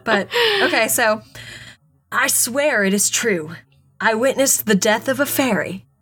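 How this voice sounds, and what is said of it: Put-on accent while reading. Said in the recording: “do you know who you sound like? ... You sound like Liberty Bell. ... I'm not even doing that strong of an accent.”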